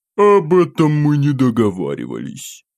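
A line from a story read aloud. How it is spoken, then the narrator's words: Snide laughter. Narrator (Russian): Ехидным голосом расхохотался этот засранец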